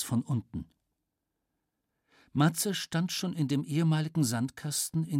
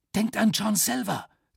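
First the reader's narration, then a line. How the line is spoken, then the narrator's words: Hissing. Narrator (German): zischte Flieger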